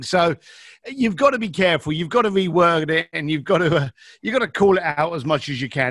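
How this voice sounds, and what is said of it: Slight East London accent. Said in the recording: “I hear just a bit of an accent ... I'm an East London boy.”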